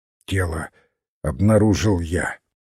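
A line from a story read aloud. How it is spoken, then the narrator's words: Slightly hoarse. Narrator (Russian): чуть хрипловато начал Финц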